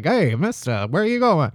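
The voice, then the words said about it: Put-on old-movie mid-Atlantic accent. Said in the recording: “That mid-Atlantic accent.”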